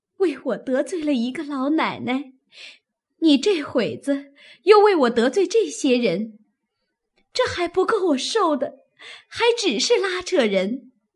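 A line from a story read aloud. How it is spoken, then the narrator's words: Crying. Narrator (Chinese): 袭人一面哭一面道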